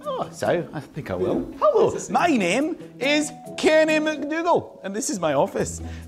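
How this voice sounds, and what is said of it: Thick Scottish Highlands accent. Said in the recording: “Are you Scottish? ... I'm from the Highlands. ... accent ... it's quite intense ... it's quite thick”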